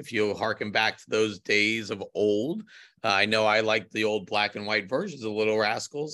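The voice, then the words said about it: Hoarse, croaky voice. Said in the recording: “I have a frog in my throat.”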